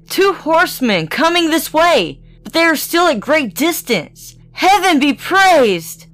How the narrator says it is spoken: exclaimed

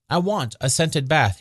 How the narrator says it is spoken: he said

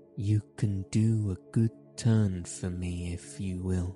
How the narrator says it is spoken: he answered

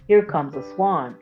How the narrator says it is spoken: answered Gretel

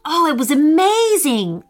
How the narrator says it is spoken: Owen exclaimed with joy

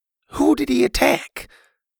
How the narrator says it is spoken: Bo sighed

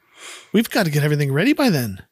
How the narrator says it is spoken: He quickly thinks and says

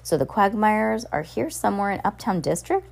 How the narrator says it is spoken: Hector said

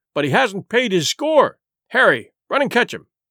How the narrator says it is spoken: cried Silver

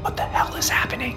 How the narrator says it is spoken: I whisper, dread knotting my stomach

